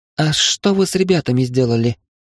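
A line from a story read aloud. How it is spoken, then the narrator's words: Frightened girl's question. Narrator (Russian): испуганно спросила девушка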